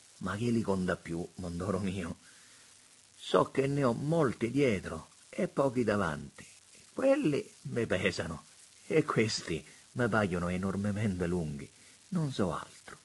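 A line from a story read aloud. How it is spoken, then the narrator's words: Sighing. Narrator (Italian): sospirò Don Cosmo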